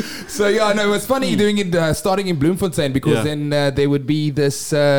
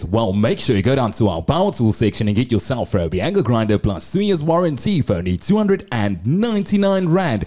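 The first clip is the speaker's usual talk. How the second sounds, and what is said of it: Radio advert announcer voice. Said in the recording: “I further on went and became the voice of Macro ... you turn on your radio and you hear ... I'm going to do the voice ... you put on the radio and you hear the guy that says”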